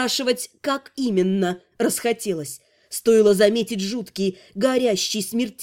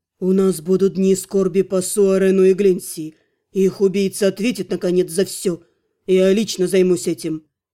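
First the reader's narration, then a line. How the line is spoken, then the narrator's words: Old man, plain. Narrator (Russian): Дед печально посмотрел на меня, ответил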